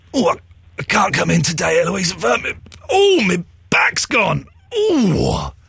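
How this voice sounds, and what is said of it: Exaggerated ailing sick voice. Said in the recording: “doing a sick voice ... This is my back voice.”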